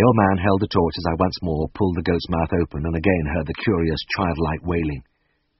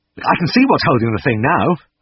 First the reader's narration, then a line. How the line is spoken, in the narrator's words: cried